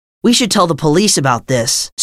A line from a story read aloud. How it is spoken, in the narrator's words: said Bill